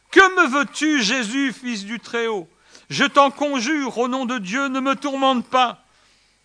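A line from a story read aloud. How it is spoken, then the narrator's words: Loud cry. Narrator (French): s'écria d'une voix forte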